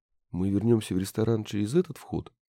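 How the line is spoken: Barely audible. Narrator (Russian): говорил, едва слышно

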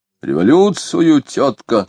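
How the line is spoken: Calm loud answer. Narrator (Russian): спокойно и громко ответили ей

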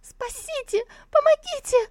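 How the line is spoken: Terrified shrieking. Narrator (Russian): визжащую от страха

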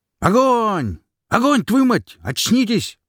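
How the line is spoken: Yelling at soldiers. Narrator (Russian): заорал на бойцов Вялый

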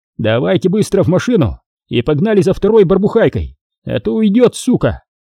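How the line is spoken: Shout. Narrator (Russian): крикнул туркмен

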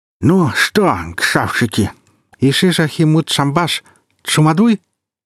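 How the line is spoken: Lisping garbled solemn speech. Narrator (Russian): силился выдать торжественную речь, но ортопедические скобки превратили ее в шепелявую абракадабру

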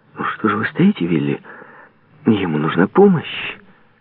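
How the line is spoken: Exclaiming. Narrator (Russian): придя в себя, воскликнула

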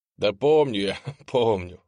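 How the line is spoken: Laughing. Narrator (Russian): засмеялся адепт

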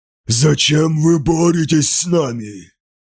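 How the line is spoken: Strange altered voice. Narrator (Russian): спросил воин чужим голосом

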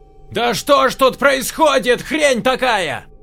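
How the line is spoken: Woman yelling. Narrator (Russian): заорала генетик

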